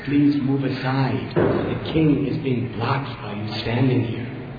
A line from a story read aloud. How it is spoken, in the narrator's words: The king's minister, Harichanda, very gently and politely asked Srivas